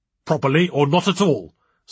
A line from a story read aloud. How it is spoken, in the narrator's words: snapped the angry-looking man opposite Roger the chairman